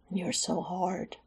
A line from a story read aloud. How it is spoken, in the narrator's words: Alex whispered in his ear, pitched for both to hear